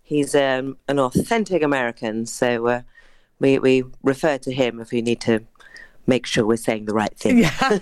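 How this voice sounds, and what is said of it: British English accent. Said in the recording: “British actor ... your beautiful accent, because this production comes from London.”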